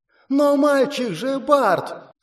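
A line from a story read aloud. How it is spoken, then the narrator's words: Indignant shriek. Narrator (Russian): с возмущением взвизгнула леди Элифлор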